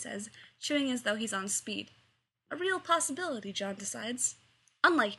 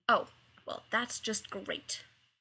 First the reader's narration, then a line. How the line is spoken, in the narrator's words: Rodney mutters